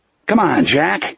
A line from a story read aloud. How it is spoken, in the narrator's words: Smokey called impatiently from the bar